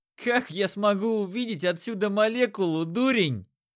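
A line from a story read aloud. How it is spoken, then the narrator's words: Merry laughter. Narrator (Russian): Весело расхохотался лучник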